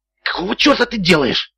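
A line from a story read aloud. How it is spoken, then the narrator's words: Hissed. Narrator (Russian): прошипел Макград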